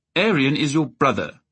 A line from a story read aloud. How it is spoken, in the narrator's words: the prince said firmly